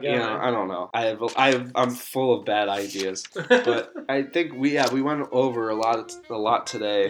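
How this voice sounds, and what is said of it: Slightly nasal voice. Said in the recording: “if I sound a little nasal today. It's because I'm getting over a cold. So that's why I sound so weird.”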